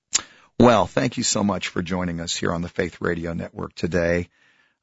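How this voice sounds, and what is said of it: Raspy voice. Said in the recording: “sounding a bit raspy”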